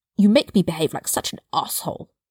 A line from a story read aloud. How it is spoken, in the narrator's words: Draco spat